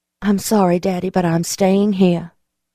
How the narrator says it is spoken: I said softly

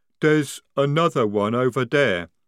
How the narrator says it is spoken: rumbled Jade

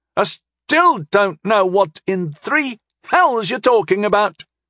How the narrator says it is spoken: Allura screamed from the hall

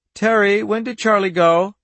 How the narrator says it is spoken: A child's voice piped

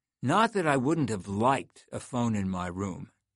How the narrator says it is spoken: he said

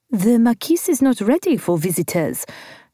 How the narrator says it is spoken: she said in her prim French voice

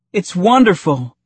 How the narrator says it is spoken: Padme exclaimed

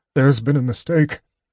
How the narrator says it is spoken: he whimpered

